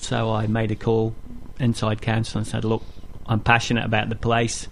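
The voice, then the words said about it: Northern English accent. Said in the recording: “Judging by your accent, you've come a bit further than Wellington. ... I grew up in the Peak District in Derbyshire, near Sheffield, north of England. Went to Scotland to university and stayed there for 13 years.”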